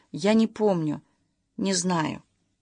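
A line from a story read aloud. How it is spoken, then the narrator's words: Barely audible reply. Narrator (Russian): Любаша чуть слышно ответила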